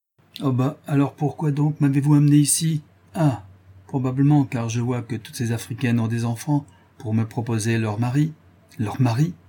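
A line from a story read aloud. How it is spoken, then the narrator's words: Sneering, odd inflection. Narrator (French): répéta en ricanant et avec une singulière inflexion de voix le portugais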